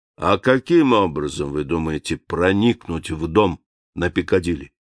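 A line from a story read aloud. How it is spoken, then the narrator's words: Calm. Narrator (Russian): Профессор спокойно сказал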